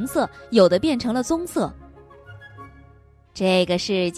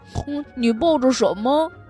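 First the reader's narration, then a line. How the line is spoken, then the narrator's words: Plain. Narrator (Chinese): 小猪问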